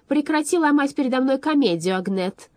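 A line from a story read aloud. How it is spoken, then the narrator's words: Shouted. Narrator (Russian): выкрикнула она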